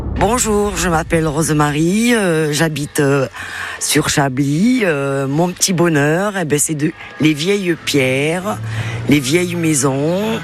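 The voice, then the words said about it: Slight regional accent. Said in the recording (French): “Il y avait même un petit accent”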